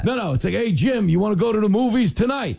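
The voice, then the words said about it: Gruff accent like a bookie. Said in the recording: “women who have my accent. ... it sounds like a bookie calling to collect.”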